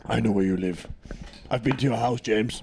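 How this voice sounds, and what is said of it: Thick African accent. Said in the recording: “speak in like a thick African accent”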